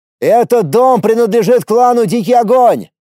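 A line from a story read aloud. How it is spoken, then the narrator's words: Loud shout. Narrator (Russian): громко крикнул я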